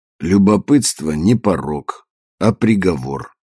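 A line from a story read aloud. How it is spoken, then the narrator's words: Grim joke. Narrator (Russian): мрачно пошутил Марио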